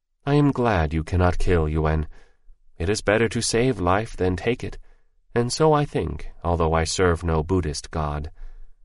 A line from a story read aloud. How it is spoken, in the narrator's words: she said more kindly still